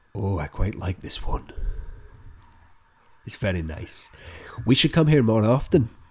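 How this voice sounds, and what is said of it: Put-on Irish accent. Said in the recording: “if you just stop doing the Irish accent ... I'm gonna also try the accent.”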